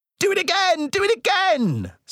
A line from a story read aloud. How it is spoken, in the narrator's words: screeched Blart in delight